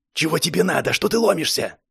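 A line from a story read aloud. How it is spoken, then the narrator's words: Glum loud whisper. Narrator (Russian): Голос был не сильно веселый, к тому же все это он говорил громким шепотом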